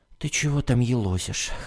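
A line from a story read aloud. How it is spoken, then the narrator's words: Hoarse old woman, from darkness. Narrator (Russian): хрипло спросила из темноты бабушка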